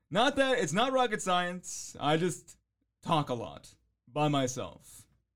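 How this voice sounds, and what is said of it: Polished radio presenter voice. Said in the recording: “I have this voice ... a good voice, good radio presence ... I have a radio voice”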